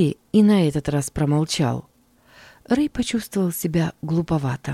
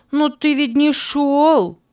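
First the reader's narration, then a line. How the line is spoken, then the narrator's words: Shouted reply. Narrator (Russian): крикнул в ответ Алекс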